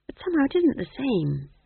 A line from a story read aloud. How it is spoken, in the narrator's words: whispered McGrath wretchedly